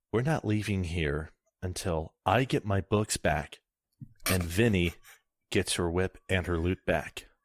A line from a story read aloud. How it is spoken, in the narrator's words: whispers